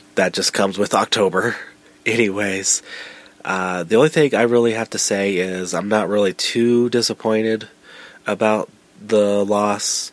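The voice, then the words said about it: Voice affected by a cold. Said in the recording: “apologize for my voice as I have a little bit of a cold.”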